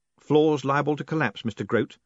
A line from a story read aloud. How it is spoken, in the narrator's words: said Moist cheerfully